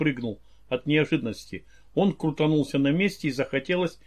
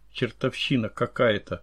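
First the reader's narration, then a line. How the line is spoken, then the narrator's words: Very quiet mutter. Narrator (Russian): пробормотал он совсем тихо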